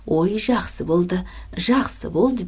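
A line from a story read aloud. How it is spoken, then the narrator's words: Joyful. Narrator (Kazakh): деп Боря қуанып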